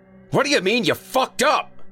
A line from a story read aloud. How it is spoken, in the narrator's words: Earl shouted